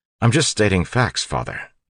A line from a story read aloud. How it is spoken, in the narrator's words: Ellen said quickly